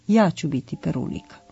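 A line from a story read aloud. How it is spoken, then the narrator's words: Calm little girl. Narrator (Serbian): jedna devojčica je mirno rekla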